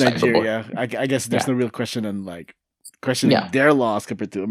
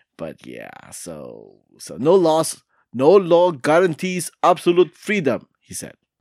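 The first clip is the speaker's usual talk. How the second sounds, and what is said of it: Put-on Nigerian accent. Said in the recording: “Are you doing a Nigerian accent? ... Don't do an accent.”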